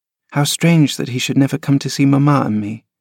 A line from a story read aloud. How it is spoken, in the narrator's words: he murmured